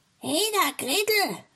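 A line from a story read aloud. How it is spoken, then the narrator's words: Calling out. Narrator (German): rief sie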